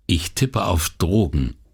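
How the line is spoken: Plain. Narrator (German): sagte sie

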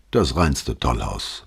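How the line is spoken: Muttered to himself. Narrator (German): murmelte Brunetti vor sich hin

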